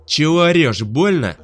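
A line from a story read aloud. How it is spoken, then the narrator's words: Shouted reply. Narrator (Russian): крикнул в ответ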